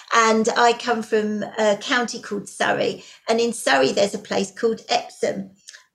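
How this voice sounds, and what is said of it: English accent. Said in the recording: “I come from England. You might have guessed from the accent”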